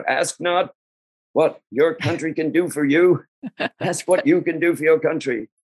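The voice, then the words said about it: Good JFK impression. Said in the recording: “famous expression from JFK ... That's a good imitation.”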